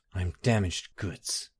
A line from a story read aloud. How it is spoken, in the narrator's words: Barenziah said bitterly